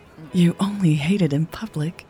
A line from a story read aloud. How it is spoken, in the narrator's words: Natalie said softly in her ear